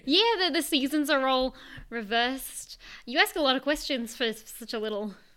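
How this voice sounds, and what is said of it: Australian accent. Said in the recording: “accent ... Is that Cockney or? ... No, it's Australian”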